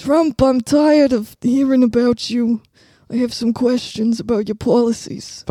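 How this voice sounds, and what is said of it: Poor imitation of another person's voice. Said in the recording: “I'm doing like Bernie Trump right now ... This is just the bad impression ... This is just us not being able to find the impression”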